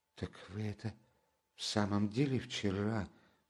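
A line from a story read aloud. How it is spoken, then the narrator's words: Strained whisper. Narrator (Russian): с трудом прошептала она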